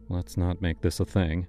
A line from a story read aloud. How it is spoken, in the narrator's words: he muttered